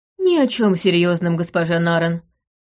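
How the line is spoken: Glum reply. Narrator (Russian): уныло ответил он

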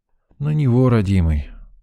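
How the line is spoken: Sigh. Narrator (Russian): вздохнул я

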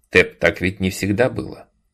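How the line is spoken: Plain. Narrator (Russian): ответил я

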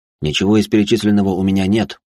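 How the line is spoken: Plain. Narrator (Russian): ответил я

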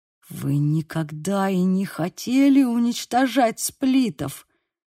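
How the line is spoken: Hiss. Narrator (Russian): прошипел Тревор

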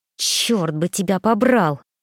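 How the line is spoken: Angry through teeth. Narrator (Russian): процедила я в сердцах

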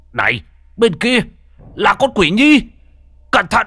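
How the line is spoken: Alarmed loud shout. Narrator (Vietnamese): Bất giác trông thấy nguy hiểm, ông hét lớn

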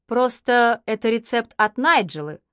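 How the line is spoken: Plain. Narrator (Russian): сказала она

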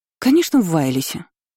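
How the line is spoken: Indignant exclamation. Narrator (Russian): возмущенно воскликнула госпожа Далира

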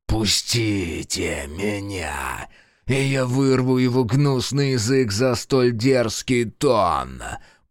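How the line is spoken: Growling. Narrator (Russian): прорычал Фергус

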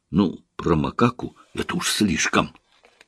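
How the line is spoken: Whisper. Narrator (Russian): прошептала

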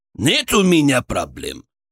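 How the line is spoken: Snapping, audibly unsure. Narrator (Russian): огрызнулся Арсен, но вот его неуверенность была почти осязаемой

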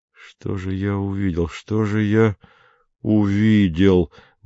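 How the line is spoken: Muttering. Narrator (Russian): бормотал Мбога

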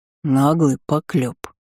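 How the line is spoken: Deep bass voice. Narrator (Russian): пробасил Элви

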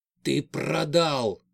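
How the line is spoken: Growl through teeth. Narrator (Russian): зарычал сквозь зубы на Карипанова

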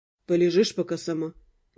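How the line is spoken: Soft question. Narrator (Russian): мягко спросил меня Дамиан

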